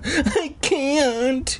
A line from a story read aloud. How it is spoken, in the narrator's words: he wailed